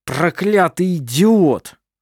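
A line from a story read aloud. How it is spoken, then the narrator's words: Muttered through gritted teeth. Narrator (Russian): проговорил один из мужчин сквозь зубы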